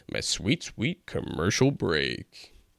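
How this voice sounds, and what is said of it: Put-on radio announcer voice. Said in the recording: “I'm working on my radio voice.”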